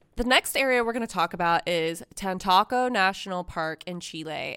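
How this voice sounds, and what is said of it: Nasal California Valley girl accent. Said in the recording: “I'm saying that with like a California Valley girl accent. I have a sinus infection right now, which doesn't help because I have that like really nasally”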